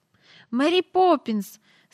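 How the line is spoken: Frightened, trembling cry. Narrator (Ukrainian): скрикнула Джейн тремтячим голосом, бо їй раптом не знати чому зробилося страшно

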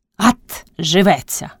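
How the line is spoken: Old woman's cracked-bell bark. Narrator (Ukrainian): гаркнула стара, мов, у розбитого дзвона вдарила

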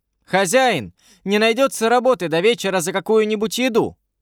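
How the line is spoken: Shout. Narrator (Russian): девушка крикнула

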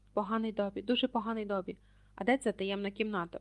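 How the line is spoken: Whispered. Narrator (Ukrainian): прошепотів Гаррі

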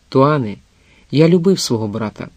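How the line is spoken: Calm. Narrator (Ukrainian): Потім він спокійно промовив

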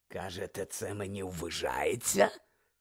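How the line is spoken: Hoarse rasp. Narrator (Ukrainian): прохрипів Муді

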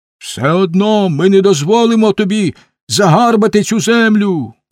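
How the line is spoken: Someone shouting. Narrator (Ukrainian): крикнув хтось

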